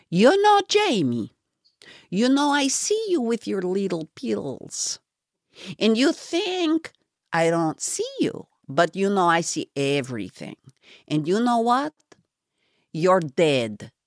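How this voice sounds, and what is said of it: Bad accented imitation of a woman. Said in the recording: “my bad accent, Ruthie ... my terrible Ruth Ponfion imitation”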